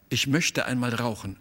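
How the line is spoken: Plain. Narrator (German): sagte sie

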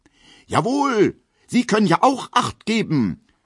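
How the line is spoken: Indignant male shout. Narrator (German): ruft er in männlicher Entrüstung

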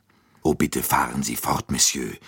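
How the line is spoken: Plain. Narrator (German): sagte Dr

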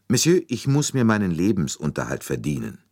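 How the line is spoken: Calm, slightly hard. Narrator (German): Sie sagte ruhig, aber mit einer Spur von Härte in der Stimme

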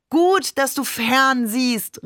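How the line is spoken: Called out. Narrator (German): rief Babe

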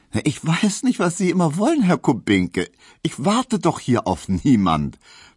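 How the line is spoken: Laughing reply. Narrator (German): versetzte Hedwig lachend

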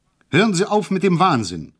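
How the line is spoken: Called out. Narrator (German): rief

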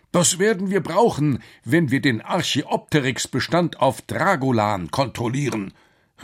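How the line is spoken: Satisfied call. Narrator (German): rief Quakenbrück zufrieden

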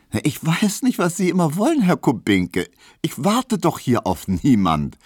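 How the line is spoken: Laughing, pointed retort. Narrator (German): versetzte Hedwig lachend, denn sie fühlte, dass sie hiermit traf

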